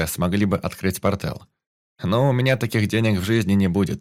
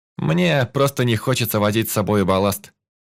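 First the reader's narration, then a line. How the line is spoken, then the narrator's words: Scornful snort. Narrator (Russian): фыркнул я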